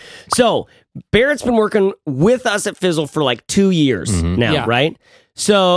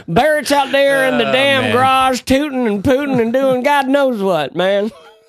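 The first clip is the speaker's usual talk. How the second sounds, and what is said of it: Imitates another person's voice. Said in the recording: “my impersonation of Nicole. That's a bad impersonation. ... That was horrible.”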